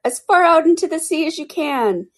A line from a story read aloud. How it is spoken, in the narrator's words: shouted the Gryphon